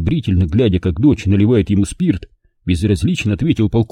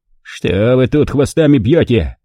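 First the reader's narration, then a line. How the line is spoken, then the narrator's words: Contented rumble. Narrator (Russian): довольно прогудел он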